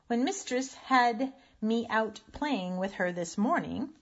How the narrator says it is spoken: said Raggedy Ann

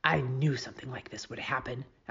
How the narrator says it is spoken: Alice Wendelken whispered to me

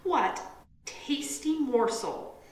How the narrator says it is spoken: grand folk used to exclaim

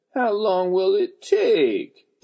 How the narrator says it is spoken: Deely asked in a whiny voice

